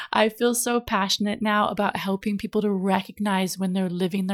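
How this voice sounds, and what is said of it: Usual voice. Nothing is said of it.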